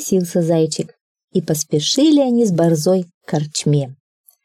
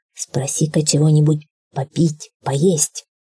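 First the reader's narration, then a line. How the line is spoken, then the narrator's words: Quiet dog's voice. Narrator (Russian): тихонько сказала борзая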